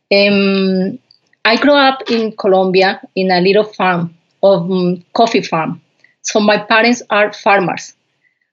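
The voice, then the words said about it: Strong Colombian Spanish accent in English. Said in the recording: “I had – a strong accent, and I hope everyone can understand me perfectly”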